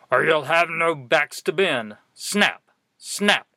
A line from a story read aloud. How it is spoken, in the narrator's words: barked the quartermaster